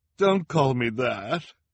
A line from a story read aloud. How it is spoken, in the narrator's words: Madame Lulu cried at the sound of her name